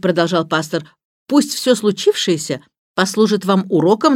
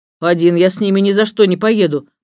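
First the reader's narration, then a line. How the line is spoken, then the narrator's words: Grumbling under breath. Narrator (Russian): пробурчал Эндрю себе под нос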